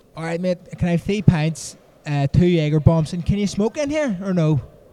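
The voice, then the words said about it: Thick West Belfast accent. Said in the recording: “give me your best Belfast... thicken up the Belfast accent... that's thicker? That'd be like West Belfast, probably”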